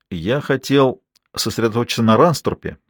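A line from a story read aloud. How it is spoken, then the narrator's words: Plain. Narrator (Russian): сказал он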